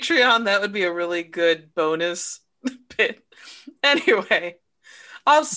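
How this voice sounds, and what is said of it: Usual voice. Nothing is said of it.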